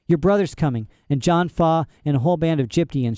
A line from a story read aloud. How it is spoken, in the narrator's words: she said